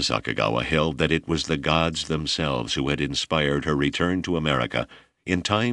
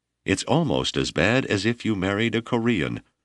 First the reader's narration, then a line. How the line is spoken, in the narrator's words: Strong threats were made, mother cried